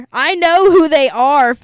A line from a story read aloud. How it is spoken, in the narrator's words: Father Mancuso blurted